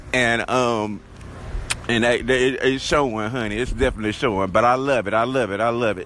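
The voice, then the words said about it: Southern drawl accent. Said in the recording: “my accent, honey, how southern I am. Got that southern drawl”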